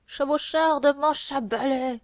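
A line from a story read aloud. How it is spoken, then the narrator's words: Shouting. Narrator (French): criait l'autre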